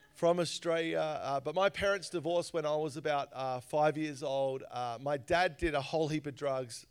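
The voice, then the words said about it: Australian accent. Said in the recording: “my story is I grew up in Australia. You probably realize I sound a little different.”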